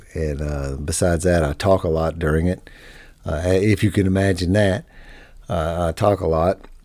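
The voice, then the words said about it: Hoarse, worn-out voice. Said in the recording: “my voice is blown out ... my voice is shot tonight”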